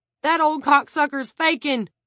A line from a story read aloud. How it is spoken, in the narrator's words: Carson Struthers shouted